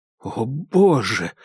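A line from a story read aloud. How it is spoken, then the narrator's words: Breathless exhale. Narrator (Russian): выдохнул Дейл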